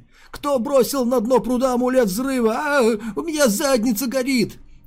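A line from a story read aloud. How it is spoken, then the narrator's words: Panicked sobbing. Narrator (Russian): Они рыдали, как дети, и в панике звали маму с папой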